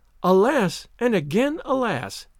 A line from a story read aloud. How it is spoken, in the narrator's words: exclaimed Olivia